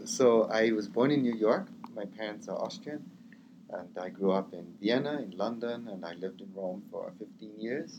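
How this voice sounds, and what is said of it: Slightly non-native Austrian-American accent. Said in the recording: “I am an Austrian with an American passport. You can hear my accent isn't quite right.”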